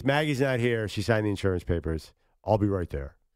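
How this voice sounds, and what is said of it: Imitates another person's voice. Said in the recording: “That's my Keith Morrison.”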